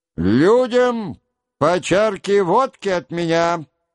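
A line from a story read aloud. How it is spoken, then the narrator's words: Loud, for soldiers. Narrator (Russian): прибавил он громко, чтоб солдаты слышали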